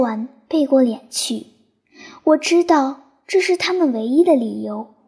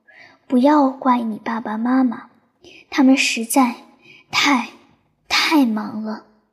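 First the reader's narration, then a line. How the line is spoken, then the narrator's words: Sighing. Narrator (Chinese): 云婆婆 叹了口气说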